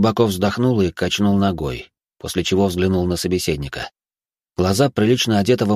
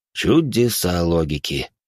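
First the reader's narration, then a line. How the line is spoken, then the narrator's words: Sigh. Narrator (Russian): вздохнул Патруш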